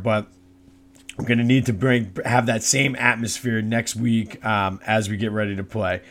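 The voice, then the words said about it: Hoarse, worn-out voice. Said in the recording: “The crowd was rocking last night. you can hear my voice is still, still not 100% there.”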